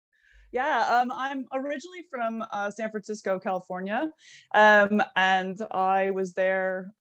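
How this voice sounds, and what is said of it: Non-British accent. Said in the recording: “the listeners straight away can hear that you don't have a British accent”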